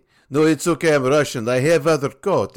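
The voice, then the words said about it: Put-on Russian accent. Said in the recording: “I didn't mean to do a Russian accent for the Russian guy.”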